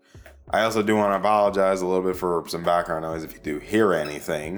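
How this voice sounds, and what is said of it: Worn-out, strained voice. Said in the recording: “my voice is kind of shot... my voice has been kind of shot a little bit throughout this entire week”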